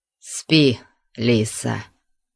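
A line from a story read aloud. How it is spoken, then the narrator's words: Hoarse, conflicted voice. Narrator (Russian): сказал он голосом хриплым от противоречивых чувств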